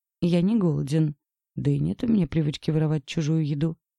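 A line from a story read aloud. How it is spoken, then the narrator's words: Calm. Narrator (Russian): спокойно произнес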